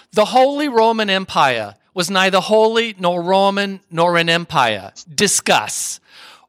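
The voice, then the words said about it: Linda Richman impression, thick New York accent. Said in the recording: “Mike Myers did in the personage of Linda Richman ... she had a very thick New York accent ... I'm going to do my best Linda Richman impersonation”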